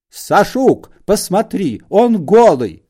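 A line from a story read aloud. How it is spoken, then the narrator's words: Woman shouting. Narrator (Russian): закричала она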